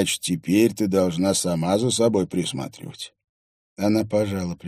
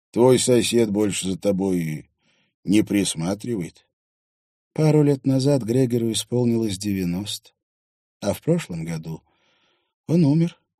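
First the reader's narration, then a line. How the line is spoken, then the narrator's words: Sighing. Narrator (Russian): вздохнула Кая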